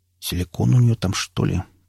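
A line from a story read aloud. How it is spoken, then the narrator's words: Muttering. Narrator (Russian): пробормотал окунь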